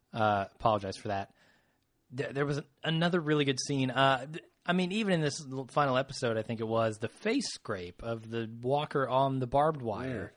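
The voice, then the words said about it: Slightly rough, hoarse voice. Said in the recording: “I'm sick, so my voice is a little rough.”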